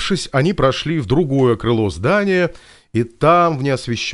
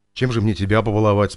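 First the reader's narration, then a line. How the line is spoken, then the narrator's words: Plain. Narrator (Russian): спросил Виктор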